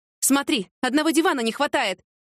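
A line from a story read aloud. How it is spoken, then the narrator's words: Shouting. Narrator (Russian): закричала Яна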